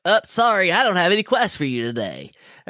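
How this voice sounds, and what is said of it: Imitates a video game character's voice. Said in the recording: “Good impression, by the way. ... I can tell what voice you're doing, and it's not the quest giver. It's the online dungeon. ... good impression.”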